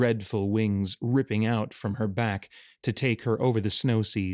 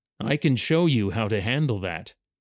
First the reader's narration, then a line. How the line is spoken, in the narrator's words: a voice like a river